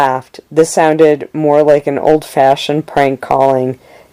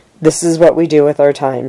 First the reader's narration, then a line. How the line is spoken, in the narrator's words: she said